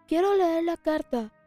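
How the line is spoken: Shouted. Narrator (Spanish): dijo a gritos

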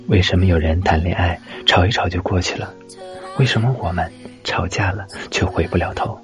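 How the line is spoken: Laughing. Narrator (Chinese): 我笑了

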